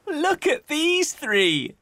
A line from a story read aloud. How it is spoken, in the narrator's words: he said, laughing